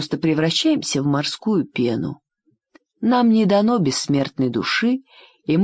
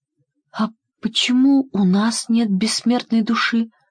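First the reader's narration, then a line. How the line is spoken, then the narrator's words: Sad question. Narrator (Russian): грустно спросила русалочка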